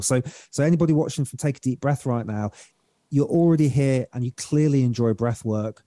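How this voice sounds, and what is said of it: British accent. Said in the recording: “my beautiful British accent”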